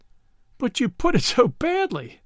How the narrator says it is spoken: Brett laughed

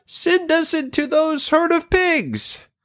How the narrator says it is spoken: the demons begged

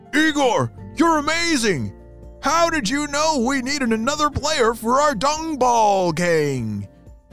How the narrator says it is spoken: shouted one of the dung beetles

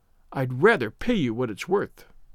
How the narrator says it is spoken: she said coldly

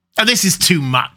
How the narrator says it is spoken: said, angrily

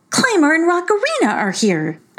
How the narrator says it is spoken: exclaimed Heichu

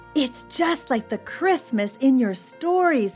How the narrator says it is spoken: he cried

